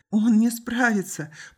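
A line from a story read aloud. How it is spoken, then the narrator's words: Girl moaning. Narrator (Russian): простонала девушка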